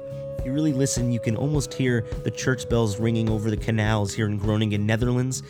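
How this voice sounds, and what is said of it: Voice not at its best. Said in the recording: “You can probably tell that my voice isn't at its best right now. That's probably because I'm in the middle of a crazy month-long tour in Europe.”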